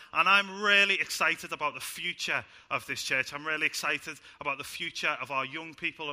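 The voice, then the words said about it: Speaks with a noticeable accent. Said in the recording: “for starting to understand my accent”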